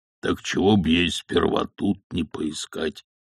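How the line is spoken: Sad question. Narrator (Russian): печально спросил Джейсон

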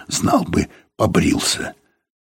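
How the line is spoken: Hoarse whisper. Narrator (Russian): кто-то сказал кому-то сипловатым шепотом

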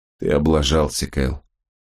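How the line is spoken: Muttering again. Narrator (Russian): снова пробормотал он

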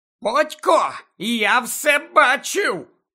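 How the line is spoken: Indignant. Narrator (Ukrainian): обурено сказав Півс Гаррі

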